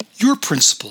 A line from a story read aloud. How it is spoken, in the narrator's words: said Audie